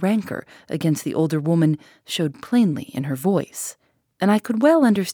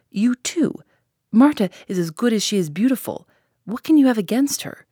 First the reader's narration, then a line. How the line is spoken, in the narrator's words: cried the boy